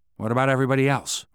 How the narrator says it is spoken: Ryan asked

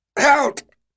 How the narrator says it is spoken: yelled, his voice cracking with the strain of it

